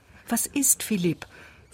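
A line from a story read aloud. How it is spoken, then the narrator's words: Question. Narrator (German): fragte sie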